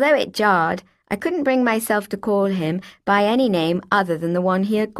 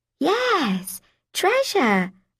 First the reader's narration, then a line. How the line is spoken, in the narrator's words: I cooed